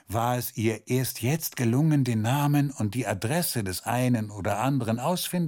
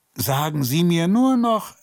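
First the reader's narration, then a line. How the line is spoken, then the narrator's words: Called after her. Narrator (German): rief er ihr hinterher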